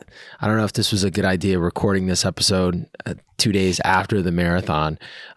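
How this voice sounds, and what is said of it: Hoarse, worn-out voice. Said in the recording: “my voice is shot... I probably need another week and a lot of tea with lemon to get my voice back”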